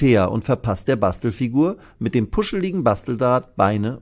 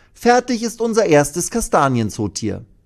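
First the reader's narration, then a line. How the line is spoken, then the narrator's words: Beaming, joyful call. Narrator (German): ruft sie und strahlt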